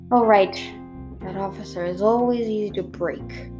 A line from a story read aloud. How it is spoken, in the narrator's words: I heard him murmur